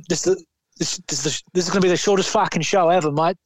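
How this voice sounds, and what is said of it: Put-on Australian accent. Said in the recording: “in his Aussie accent, please excuse me for this accent.”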